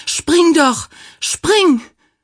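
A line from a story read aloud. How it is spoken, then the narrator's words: Shrieking. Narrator (German): kreischte sie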